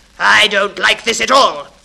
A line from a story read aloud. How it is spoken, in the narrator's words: the conductor shouted, frightened and furious